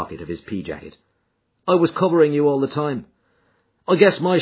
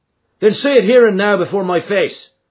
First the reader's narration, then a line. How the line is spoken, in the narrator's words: cried McMurdo